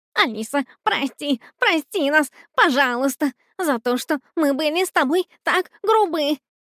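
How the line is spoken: Babbling. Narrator (Russian): Лепетал он

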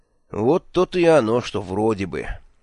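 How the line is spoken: Grim smirk. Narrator (Russian): мрачно ухмыльнулся я

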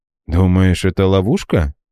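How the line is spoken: Gloomy question. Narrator (Russian): мрачно спросил Франсуа

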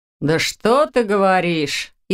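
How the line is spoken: Sarcastic. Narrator (Russian): язвительно отозвался Доминик

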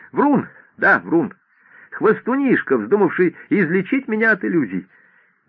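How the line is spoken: Forced, almost cheerful. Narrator (Russian): доктор сделал над собой нечеловеческое усилие и почти веселым тоном повторил

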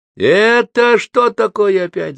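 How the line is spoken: Woman shouting. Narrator (Russian): закричала крашеная тетка

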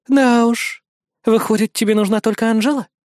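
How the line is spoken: Resigned sigh. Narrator (Russian): обреченно вздохнула Алися

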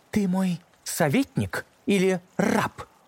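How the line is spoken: Sorceress exclaiming. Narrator (Russian): воскликнула колдунья

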